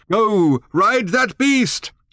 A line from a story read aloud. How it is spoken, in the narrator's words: shouted Thrashbarg